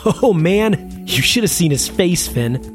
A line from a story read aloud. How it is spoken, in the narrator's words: laughed